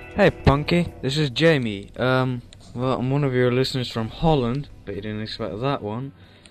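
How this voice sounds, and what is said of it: Weird, flat English accent. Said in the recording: “I basically have the flattest of English ... the weird accent. Or no accent at all”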